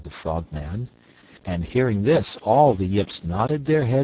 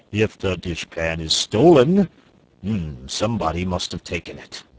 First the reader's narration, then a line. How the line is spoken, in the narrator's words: He said in his deep, croaking voice